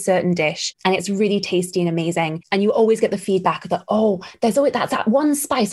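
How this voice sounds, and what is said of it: Mixed British and American accent. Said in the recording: “my accent is a weird ass mix between British and American”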